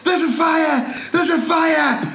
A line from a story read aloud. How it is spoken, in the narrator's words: Me and my support decided to start screaming